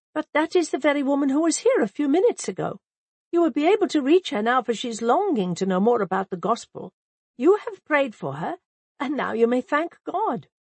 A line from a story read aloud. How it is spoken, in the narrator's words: I exclaimed